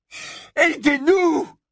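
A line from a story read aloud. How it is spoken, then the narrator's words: Desperate screaming. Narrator (French): hurla-t-il, fou de désespoir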